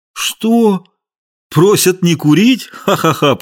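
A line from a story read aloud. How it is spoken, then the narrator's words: Laughing. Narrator (Russian): Полицейский засмеялся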